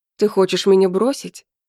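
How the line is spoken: Stern. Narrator (Russian): Я постарался, чтобы голос звучал строго

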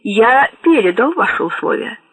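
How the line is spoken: Cold. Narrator (Russian): холодно сказала Абуладзе

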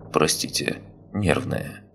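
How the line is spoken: Said calmly. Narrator (Russian): Кимов, чувствуя, как его покидает надежда даже на иллюзию собственной инициативы, не менее спокойно произнес

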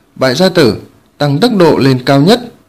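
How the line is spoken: Loud barked order. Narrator (Vietnamese): Lăng Tiếu nhướng mày quát to

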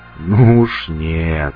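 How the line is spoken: Grumbling. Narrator (Russian): проворчал сталкер

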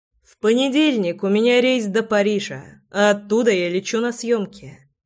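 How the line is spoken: Calm. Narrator (Russian): спокойно сообщил

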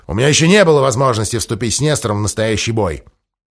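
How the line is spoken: Grumbling. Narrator (Russian): проворчал Махони

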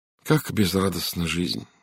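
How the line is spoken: Sighed. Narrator (Russian): вздохнула Сара

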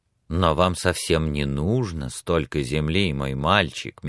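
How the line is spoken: Said softly. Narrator (Russian): мягко сказал Эдмунд

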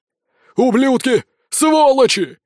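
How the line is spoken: Shouting. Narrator (Russian): кричал нам вслед староста

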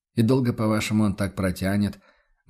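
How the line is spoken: Gloomy question. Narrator (Russian): мрачно уточнил Курт

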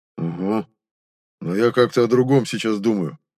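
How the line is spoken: Grumbling. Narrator (Russian): проворчал соратник

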